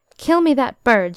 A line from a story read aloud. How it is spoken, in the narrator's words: cried